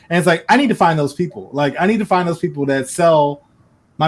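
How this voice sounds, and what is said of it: Usual voice. Nothing is said of it.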